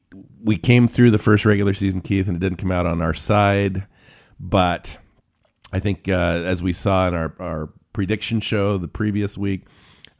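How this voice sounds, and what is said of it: Congested, stuffy-nosed voice. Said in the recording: “I've got a head cold”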